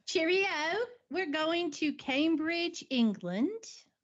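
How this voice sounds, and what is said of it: Poor attempt at British accent. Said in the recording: “I was going to try to do a British accent ... That wasn't at all close.”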